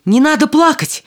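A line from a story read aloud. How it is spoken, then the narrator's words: Exclamation. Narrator (Russian): воскликнул принц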